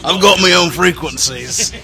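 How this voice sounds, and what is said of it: Put-on pirate accent. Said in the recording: “Why did I use that accent? ... Are you a pirate now?”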